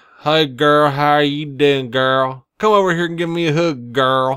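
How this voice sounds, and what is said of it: Mocking Southern accent. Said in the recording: “Southern accents”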